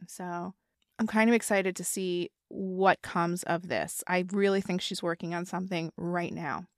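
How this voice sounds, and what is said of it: Strained, failing voice. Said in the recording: “My voice is going. I'm coughing every other second ... I literally cannot really talk ... I don't think my voice can handle it right now”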